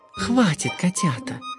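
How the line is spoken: Purring duchess. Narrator (Russian): мурлыкнула герцогиня

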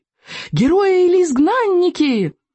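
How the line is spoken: Fanatical chorus of boys' yells. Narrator (Russian): фанатично завопили в ответ 18 мальчишек

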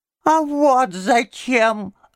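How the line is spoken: Thin high voice. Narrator (Russian): отвечал он тоненьким голоском

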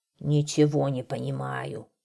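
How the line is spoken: Old man grumbling. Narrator (Russian): ворчал старый лесник

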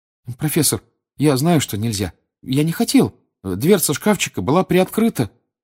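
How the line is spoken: Timid babbling. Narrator (Russian): пролепетал Гарри

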